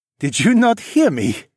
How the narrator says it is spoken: Sunhee laughed

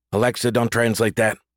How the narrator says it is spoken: quickly added

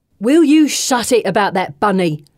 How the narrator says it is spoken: Bessie barks

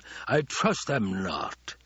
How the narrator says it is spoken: the Baron snarled

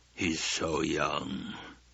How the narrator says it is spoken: the Baron sighed

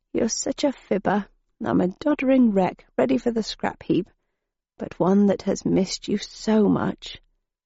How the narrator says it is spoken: she murmured

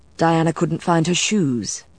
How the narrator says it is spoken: Matthew said smoothly

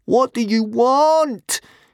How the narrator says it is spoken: Hiccup yelled desperately in Dragonese

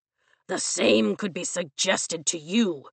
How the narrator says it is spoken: he snarls

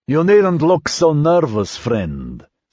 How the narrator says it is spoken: someone said in thick, slurred Russish

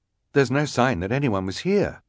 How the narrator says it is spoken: the scout said quickly

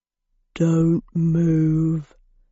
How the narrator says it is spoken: said in a low rumble

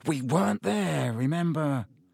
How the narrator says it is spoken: Harry muttered

